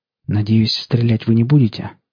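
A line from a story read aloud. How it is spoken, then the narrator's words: Quiet. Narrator (Russian): негромко сказал я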